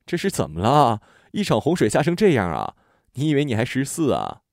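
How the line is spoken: Laughing loudly. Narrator (Chinese): 姐姐皱眉大笑

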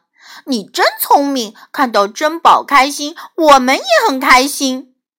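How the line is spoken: Smiling, warm. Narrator (Chinese): 詹姆斯笑着对苏菲亚说

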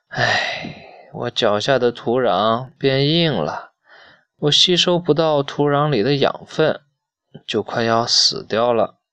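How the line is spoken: Old, sighing mournfully. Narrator (Chinese): 老杨树唉声叹气地说

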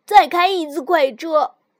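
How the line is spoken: Loud shout. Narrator (Chinese): 尤里大声嚷道

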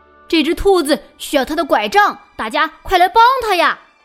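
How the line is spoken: Loud shout. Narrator (Chinese): 大声叫起来

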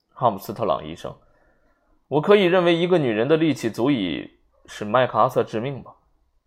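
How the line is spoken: Clear, sarcastic. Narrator (Chinese): 瓦格雷夫法官声音清晰，用嘲讽的口吻说

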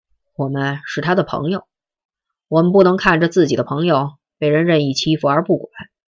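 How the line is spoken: Cold. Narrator (Chinese): 陈北江冷冷的问

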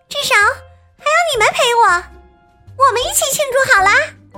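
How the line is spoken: Loud announcement. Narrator (Chinese): 大声宣布

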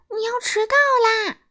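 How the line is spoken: Loud shout. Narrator (Chinese): 他使劲喊

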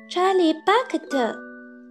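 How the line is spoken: Small, nervous, soft voice. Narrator (Chinese): 一个紧张的细小声音轻轻说了一声

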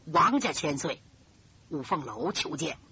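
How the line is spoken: Low voice. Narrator (Chinese): 冲着里边低声说

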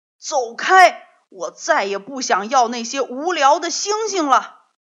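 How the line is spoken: Sudden angry loud roar. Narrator (Chinese): 坏脾气的格拉夫突然冲着小兔子大声吼着说

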